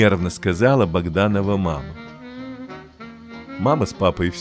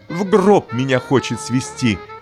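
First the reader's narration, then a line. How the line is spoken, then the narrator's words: Shouted. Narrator (Russian): крикнула Богданова мама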